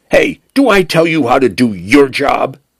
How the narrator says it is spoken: Penn snapped

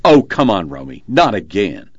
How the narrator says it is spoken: A male voice responded sharply

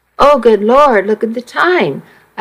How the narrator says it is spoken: I exclaimed

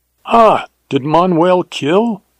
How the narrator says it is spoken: exclaimed the other, and it was certain that was news to him

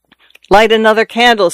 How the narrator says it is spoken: said Juan, loudly, in too resolute, too sharp a tone

